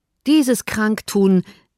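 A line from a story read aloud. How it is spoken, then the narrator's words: Shouting. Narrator (German): rief er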